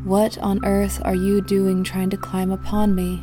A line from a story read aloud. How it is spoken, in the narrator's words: asked sleepily